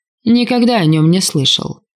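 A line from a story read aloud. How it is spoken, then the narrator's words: Snorted. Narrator (Russian): фыркнул Тюсан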